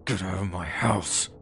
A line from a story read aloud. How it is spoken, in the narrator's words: just growled